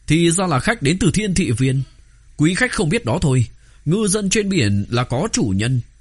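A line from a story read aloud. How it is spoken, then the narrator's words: Raised voice. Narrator (Vietnamese): Sai Khắc Kỳ cao giọng nói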